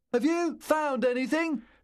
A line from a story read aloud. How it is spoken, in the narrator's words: Louis shouted